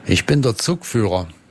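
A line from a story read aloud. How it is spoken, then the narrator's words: Plain answer. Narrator (German): antwortete der andere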